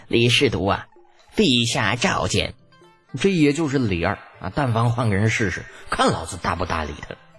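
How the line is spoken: Grinning, cheerful. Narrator (Chinese): 那大太监林喜笑嘻嘻的

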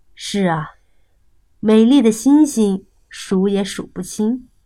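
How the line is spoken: Little fox marveling. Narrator (Chinese): 小狐狸 不禁感叹道

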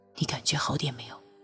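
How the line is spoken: Gentle, soothing. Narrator (Chinese): 托桑 柔声道

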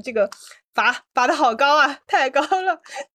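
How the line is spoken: Bursting into laughter. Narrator (Chinese): 我当时扑哧一声笑出来，我说

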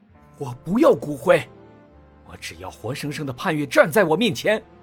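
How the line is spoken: Loud roar. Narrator (Chinese): 魏子昂大吼一声

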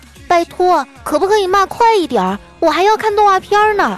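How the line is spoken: Impatient small child. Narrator (Chinese): 四岁的儿子……这儿子就不耐烦了，说

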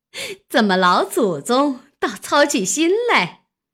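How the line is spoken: Laughing. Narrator (Chinese): 王夫人也笑了

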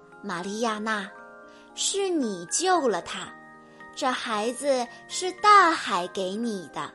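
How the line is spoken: Gentle. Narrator (Chinese): 海洋精灵 温柔地说

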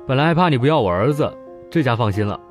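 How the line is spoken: Cheerful, smiling. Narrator (Chinese): 潘子笑眯眯地说

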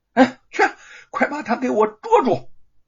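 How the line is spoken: Alarmed loud shout. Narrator (Chinese): 知县大惊啊，大声向那名差役喊道

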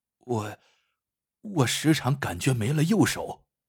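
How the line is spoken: Quiet. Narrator (Chinese): 主管小声的说

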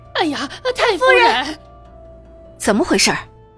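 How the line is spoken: Anxious shouting. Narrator (Chinese): 急着大叫

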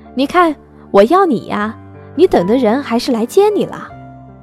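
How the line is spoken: Shouting from below. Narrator (Chinese): 慕白站在他家楼下大声喊

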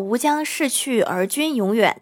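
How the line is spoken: Plain. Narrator (Chinese): 他说

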